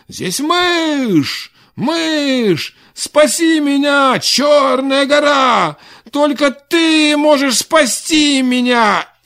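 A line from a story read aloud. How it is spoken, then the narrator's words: Shouted. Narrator (Russian): закричал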